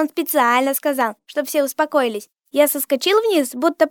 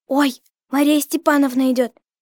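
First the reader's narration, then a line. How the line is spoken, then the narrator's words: Frightened. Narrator (Russian): Егорка сказал испуганно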